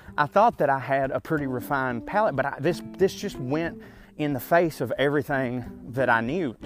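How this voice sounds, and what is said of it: Country accent. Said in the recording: “someone from my area, you know, who has the accent that I have. The accent, which of course could be described as a possum. It sounds like a possum getting butt fucked while playing a banjo. you know, the country sound.”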